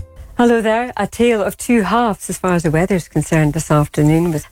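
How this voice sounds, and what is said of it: Soft-spoken Scottish accent. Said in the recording (Dutch): “een Schotse weervrouw een week lang niet goed te verstaan was ... ze te zacht praten ... Te zacht en haar Schotse accent”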